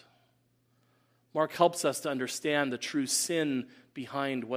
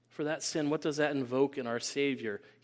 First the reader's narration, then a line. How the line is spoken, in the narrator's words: He sighs